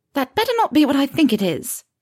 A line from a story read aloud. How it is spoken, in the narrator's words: she snapped at him